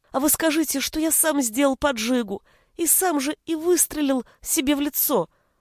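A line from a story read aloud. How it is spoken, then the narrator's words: Pleading. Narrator (Russian): взмолился Витя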